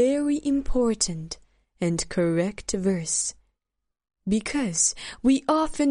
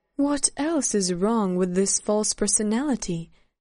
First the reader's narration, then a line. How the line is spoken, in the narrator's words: Serena asked